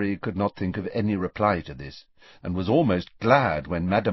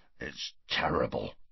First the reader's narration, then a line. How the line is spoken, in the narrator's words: growled Hagrid into his beard